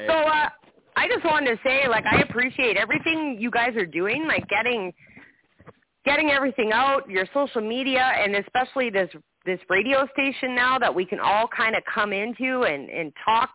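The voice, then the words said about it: Canadian accent. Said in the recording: “I can tell you're from Canada. ... I can hear the O ... I heard the O come out ... the Canadian accent”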